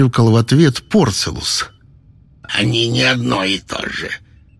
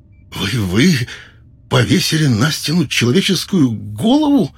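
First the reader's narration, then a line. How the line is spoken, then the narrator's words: Trembling voice. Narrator (Russian): произнес Неттер дрогнувшим голосом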